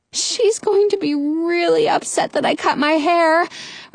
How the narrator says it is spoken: Rapunzel moans

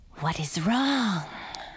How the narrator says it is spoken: breathed the snake

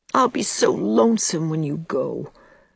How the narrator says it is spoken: moaned Diana for the hundredth time

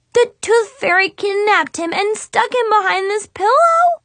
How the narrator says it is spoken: She exclaimed

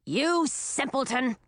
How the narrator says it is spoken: snapped Ratinki

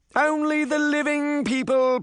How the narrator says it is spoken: Scrooge bellowed

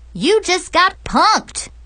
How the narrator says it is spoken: yell

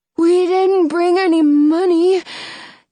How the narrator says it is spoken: Jonah says, his voice trembling

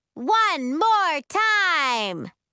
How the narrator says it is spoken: London screams at us

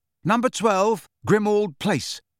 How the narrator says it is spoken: Harry said loudly and clearly

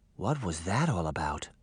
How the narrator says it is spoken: Daphne whispered

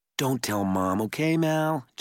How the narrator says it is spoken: Jared pleaded

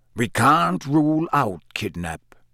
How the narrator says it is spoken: growled Moody

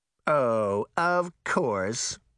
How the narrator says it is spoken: Smirt said sarcastically

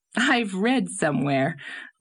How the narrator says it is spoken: laughed Anne

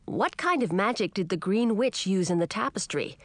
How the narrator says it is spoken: he asked

